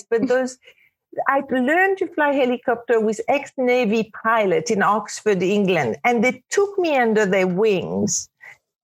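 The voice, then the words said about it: Woman with a French accent. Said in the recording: “being the only woman with a French accent”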